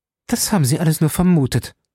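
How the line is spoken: Sharp retort. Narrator (German): entgegnete sie scharf

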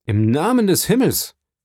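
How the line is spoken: Calling out. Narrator (German): rief Dantès

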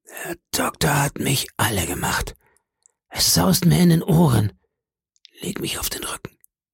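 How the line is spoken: Whispered. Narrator (German): flüsterte er

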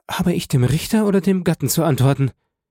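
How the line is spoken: Stammering. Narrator (German): stammelte Frau von Villefort

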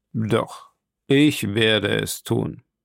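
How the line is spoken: Cold reply. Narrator (German): erwiderte kalt Kapitän Nemo

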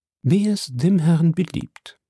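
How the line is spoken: Calm reply. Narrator (German): erwiderte Conseil ruhig

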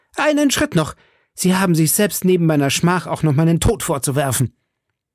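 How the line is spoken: Called out. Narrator (German): rief

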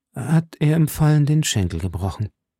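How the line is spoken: Hesitant. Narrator (German): fuhr Athos zögernd fort

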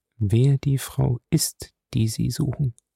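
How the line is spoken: Quiet question. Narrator (German): fragte Featherstone leise

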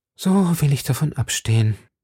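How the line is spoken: Sighing young woman. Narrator (German): sagte die junge Frau seufzend

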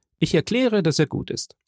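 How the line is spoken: Calling out. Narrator (German): rief Morell

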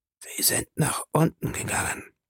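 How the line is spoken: Man whispering. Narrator (German): flüsterte der andere Mann

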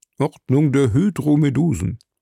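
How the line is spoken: Murmured. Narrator (German): murmelte Conseil

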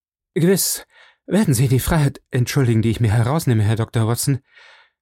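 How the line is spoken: Panting. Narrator (German): sagte er, als er keuchend

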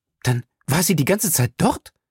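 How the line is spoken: Excited question. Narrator (German): fragte Valerie aufgeregt

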